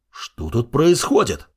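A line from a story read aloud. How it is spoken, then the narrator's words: Shocked exclamation. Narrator (Russian): воскликнул Лукас с округлившимися глазами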